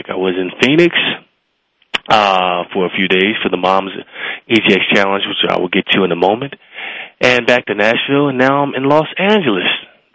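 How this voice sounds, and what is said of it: Sick, under-the-weather voice. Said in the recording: “Your boy is a little bit under the weather, so you got to excuse my voice.”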